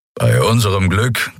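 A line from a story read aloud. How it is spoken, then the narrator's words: Growling from behind. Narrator (German): knurrte Keru hinter ihnen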